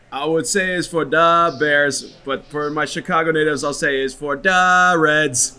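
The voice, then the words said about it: Strong Chicago accent. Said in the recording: “your strongest Chicago accent”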